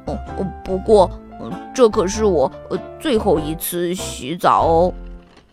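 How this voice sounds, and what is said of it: Quiet mumbling voice. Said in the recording (Chinese): “小声地嘟囔着”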